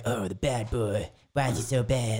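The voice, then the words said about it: Cartoon character voice. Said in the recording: “doing the Cartman voice”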